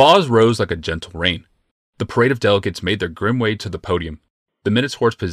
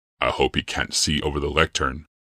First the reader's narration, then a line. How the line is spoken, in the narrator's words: Yawmoth said quietly to Rebecca